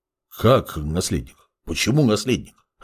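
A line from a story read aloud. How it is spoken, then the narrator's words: Confused mutter. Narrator (Russian): растерянно пробормотал Геолерон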